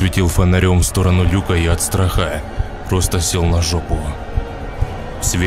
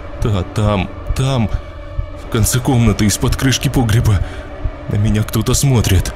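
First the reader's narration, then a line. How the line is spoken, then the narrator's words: Trembling voice. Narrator (Russian): Она дрожащим голосом сказала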